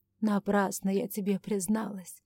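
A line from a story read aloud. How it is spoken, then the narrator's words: Regretful sigh. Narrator (Russian): сокрушенно вздохнула Ирма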